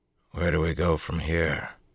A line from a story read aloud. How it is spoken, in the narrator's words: he asked quietly